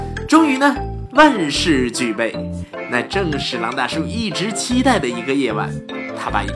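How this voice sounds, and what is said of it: Usual voice. Nothing is said of it.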